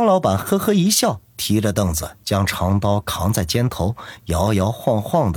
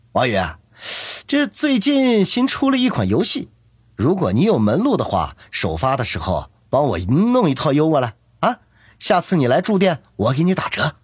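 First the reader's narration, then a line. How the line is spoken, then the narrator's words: Sudden call, smiling. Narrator (Chinese): 张老板却忽然叫住他，笑着说道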